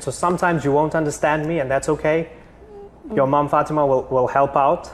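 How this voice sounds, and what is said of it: South African accent, fast speech. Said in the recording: “sometimes I speak fast and I have a South African accent ... I have a South African accent”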